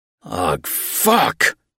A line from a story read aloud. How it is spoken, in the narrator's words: I growled